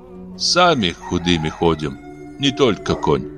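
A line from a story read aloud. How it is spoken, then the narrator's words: Timid trembling woman. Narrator (Russian): робко ответила женщина, дрожащими пальцами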